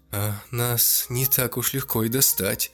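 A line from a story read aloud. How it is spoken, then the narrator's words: Nervous laugh. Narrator (Russian): нервно засмеялся Анжела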